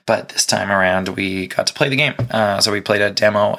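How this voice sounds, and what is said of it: Hoarse, fading voice. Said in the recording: “my voice is disappearing.”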